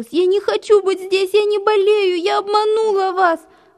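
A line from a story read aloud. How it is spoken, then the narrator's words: Sobbing. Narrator (Russian): Рыдала она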